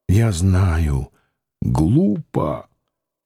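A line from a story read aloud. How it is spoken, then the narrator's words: Indistinct mumble. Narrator (Russian): невнятно пробормотал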